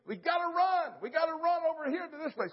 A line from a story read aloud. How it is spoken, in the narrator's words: the guy hollers at me